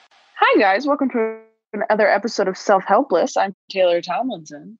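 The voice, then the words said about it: Formal newscaster-style voice. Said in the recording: “I have such a newscaster voice on when I opened this episode ... I think I went too hard ... It's very professional.”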